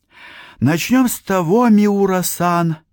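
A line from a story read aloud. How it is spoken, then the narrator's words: Sigh. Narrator (Russian): вздохнул уже я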